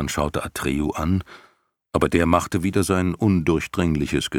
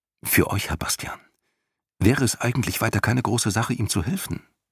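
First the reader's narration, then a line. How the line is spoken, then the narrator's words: Quiet. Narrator (German): Hüsbald meinte leise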